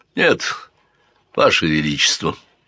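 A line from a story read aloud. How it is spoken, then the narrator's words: Trembling voice. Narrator (Russian): дрогнувшим голосом сказал он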